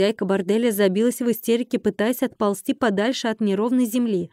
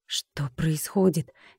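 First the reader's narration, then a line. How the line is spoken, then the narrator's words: Quiet question. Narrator (Russian): тихо спросил Колин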